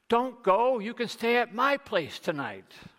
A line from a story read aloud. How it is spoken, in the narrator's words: the young innkeeper shouts